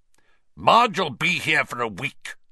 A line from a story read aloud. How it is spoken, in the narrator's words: Uncle Vernon snarled